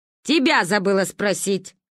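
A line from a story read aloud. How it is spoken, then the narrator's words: Snort. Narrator (Russian): хмыкнула Ба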